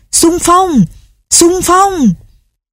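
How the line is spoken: Strange mixed-language crowd shouting. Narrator (Vietnamese): tiếng gào thét kỳ lạ, lẫn lộn đủ mọi thứ ngôn ngữ, thổ âm, giọng điệu

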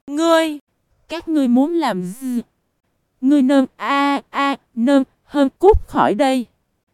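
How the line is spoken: Trembling with rage. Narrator (Vietnamese): Trữ Vô Song tức giận đến toàn thân run rẩy, nói

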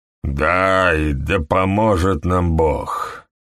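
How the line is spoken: Strange tone. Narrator (Russian): сказал он, наконец, странным тоном

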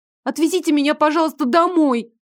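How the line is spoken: Nearly shouting. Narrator (Russian): чуть ли не крикнула

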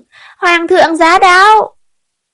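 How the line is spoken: Shrill eunuch announcement. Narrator (Vietnamese): thái giám the thé cao giọng sướng

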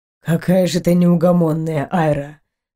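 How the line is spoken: Sighed. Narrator (Russian): вздохнул Эйнар

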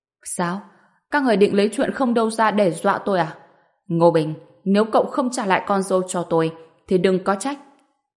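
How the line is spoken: Fearless burst of laughter. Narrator (Vietnamese): Đà Điền chẳng những không sợ mà còn cười phá lên

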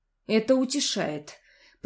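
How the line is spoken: Displeased, through teeth. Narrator (Russian): процедила недовольно

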